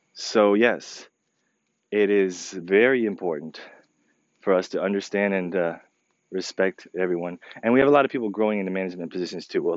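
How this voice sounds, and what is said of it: Slightly crackly voice. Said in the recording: “my voice sounds a little bit crackly”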